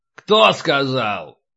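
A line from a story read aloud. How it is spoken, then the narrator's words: Barked. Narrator (Russian): рявкнул Полубой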